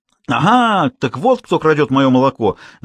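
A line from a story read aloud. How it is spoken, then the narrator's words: Yelling. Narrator (Russian): завопила мадам Эмили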